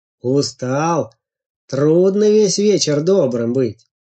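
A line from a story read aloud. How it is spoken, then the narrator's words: Sighed. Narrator (Russian): вздохнул Волк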